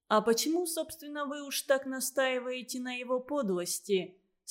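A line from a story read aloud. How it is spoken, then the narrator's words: Plain. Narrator (Russian): спросил Качинский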